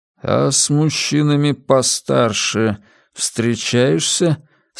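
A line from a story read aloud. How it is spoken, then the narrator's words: Odd-voiced question. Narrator (Russian): странным голосом спросил Джеймс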